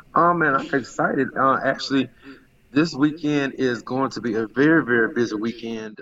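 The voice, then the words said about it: Slightly hoarse voice. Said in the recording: “as you can hear, I'm just a little hoarse.”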